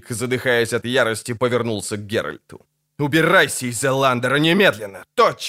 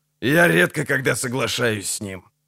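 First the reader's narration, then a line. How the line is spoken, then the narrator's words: Grumbling. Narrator (Russian): буркнул Деннис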